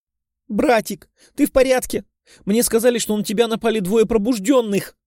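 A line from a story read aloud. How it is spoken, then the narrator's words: Shouted, sobbing young woman. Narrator (Russian): прокричала рыдающая девушка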